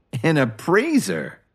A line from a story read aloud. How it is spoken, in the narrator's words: Johnny scoffed